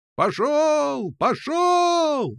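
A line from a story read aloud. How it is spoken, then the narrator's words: Men yelling. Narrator (Russian): вопили загонщики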